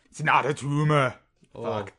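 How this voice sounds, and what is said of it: Imitation of Arnold Schwarzenegger. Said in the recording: “I have to do an Arnold impression now ... had certain aspects of Arnold, but generally missed the mark.”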